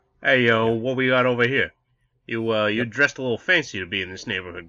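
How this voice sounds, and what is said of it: Put-on Brooklyn accent. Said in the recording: “with, like, a Brooklyn accent, too, which was great.”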